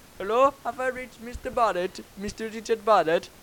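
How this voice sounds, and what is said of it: Imitated Indian accent. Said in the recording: “you're doing his accent... it was an Indian bloke”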